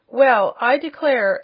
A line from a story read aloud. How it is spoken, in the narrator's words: suddenly exclaimed the little Wizard